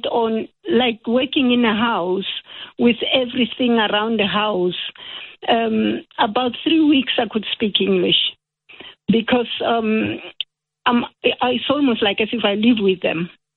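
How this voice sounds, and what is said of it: French or South African-sounding accent. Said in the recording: “this lady has a French accent too ... there were definite South African sounds there”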